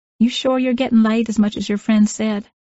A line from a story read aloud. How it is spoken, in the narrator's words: He laughed from deep within his chest